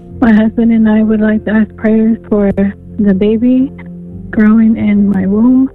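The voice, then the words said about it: Shaky, unsteady voice. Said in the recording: “my voice is a little shaky.”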